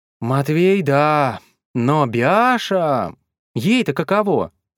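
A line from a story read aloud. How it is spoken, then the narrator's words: Sighing chorus. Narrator (Russian): вздохнули остальные лошадки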